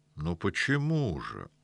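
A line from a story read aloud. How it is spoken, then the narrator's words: Replied softly. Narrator (Russian): мягко отозвался Выверзнев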